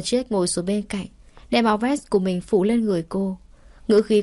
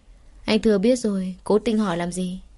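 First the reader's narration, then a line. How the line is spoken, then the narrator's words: Dry, faint laugh. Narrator (Vietnamese): Thư Di cười nhạt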